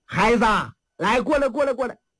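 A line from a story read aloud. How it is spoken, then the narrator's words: Calling someone over. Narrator (Chinese): 黄三太把这小要饭的叫过来了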